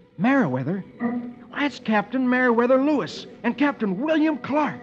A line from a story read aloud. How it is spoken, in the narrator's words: Dick stares in awe and then exclaims